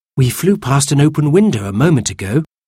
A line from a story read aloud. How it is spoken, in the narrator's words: said Cyril